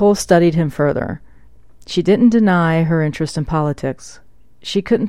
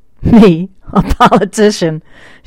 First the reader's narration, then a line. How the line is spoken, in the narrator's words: still chuckling